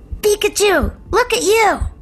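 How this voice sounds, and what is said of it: Ash Ketchum cartoon character voice. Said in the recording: “giving us a little sample of your Ash Ketchum? ... in your Ash Ketchum voice? ... I just do my version?”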